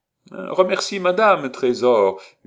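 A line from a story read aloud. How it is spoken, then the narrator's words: Shouted. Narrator (French): lui cria Bergère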